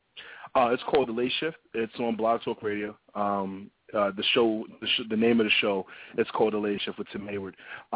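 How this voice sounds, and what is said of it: New York accent. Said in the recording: “I love your New York accent. It's really cool.”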